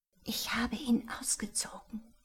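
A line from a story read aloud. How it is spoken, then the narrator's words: Whisper. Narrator (German): flüsterte Rebecca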